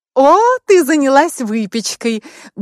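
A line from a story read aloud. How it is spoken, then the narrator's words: Cheerful exclamation. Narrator (Russian): бодро воскликнула Анна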